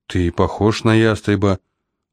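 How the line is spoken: Timid remark. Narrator (Russian): робко заметил и я

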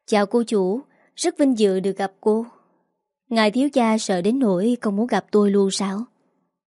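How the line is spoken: Sarcastic. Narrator (Vietnamese): Yến Lan mỉa mai

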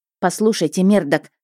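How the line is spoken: Barking. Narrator (Russian): рявкнула я, резко остановившись

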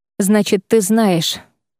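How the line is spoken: Mutter. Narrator (Russian): пробормотал Шайран

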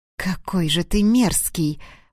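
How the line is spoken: Catgirl hissing. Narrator (Russian): прошипела девушка-кошка

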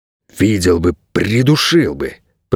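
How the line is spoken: Hissing. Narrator (Russian): прошипел Найрод

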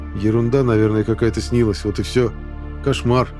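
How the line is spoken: Plain. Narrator (Russian): ответил я

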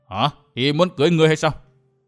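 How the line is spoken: Surprised, not angry. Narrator (Vietnamese): Thiết Bá Thương Long chẳng chút tức giận, chỉ ngạc nhiên nói

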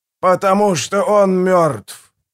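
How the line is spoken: Booming reply. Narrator (Russian): прогремел в ответ проповедник

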